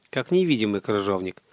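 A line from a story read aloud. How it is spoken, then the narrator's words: Irritated. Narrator (Russian): раздраженно уточнил Олег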